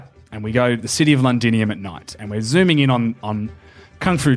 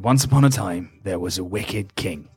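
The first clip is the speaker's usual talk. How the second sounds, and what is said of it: Old man's storytelling voice. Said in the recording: “this old man's voice ... great accent”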